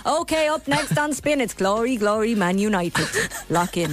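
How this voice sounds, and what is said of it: Loud Irish Dundalk-Cavan style accent. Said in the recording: “What's with the accent? What's with the Dundalk, Cavan, loud accent? ... It was meant to be like Drada. ... being kind of Welsh towards the end.”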